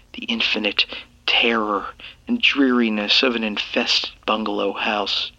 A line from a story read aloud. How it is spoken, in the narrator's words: I whispered to myself